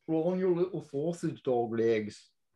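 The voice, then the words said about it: Poorly done put-on accent. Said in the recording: “I'm doing a terrible accent”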